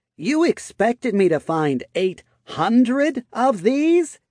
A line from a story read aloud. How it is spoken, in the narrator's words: She asked, raising her voice